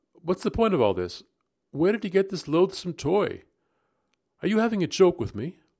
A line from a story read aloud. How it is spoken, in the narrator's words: I spoke sharply